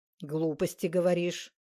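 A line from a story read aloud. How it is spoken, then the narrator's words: Stern. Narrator (Russian): строго сказал Адамант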